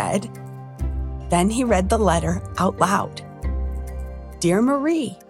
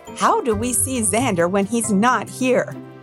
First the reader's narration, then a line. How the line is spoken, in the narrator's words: JJ asked in an exasperated tone